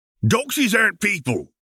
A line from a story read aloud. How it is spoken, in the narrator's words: exclaimed the wizard angrily